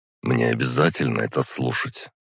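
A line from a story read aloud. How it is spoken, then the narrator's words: Sighing. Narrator (Russian): вздохнул я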